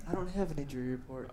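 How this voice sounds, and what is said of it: Soothing, sultry slow-jam voice. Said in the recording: “the soothing and sultry sounds ... he was trying to do a slow jam voice.”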